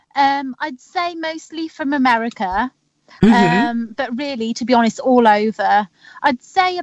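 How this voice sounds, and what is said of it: British accent. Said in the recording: “that accent gets me every time ... You can't go wrong with a British accent”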